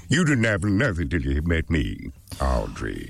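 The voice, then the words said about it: Character voice of a monster plant. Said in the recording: “I played the voice of the plant, Feed Me.”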